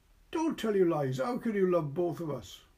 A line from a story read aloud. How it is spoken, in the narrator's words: cried